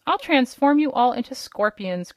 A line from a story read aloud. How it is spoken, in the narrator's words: cried the king angrily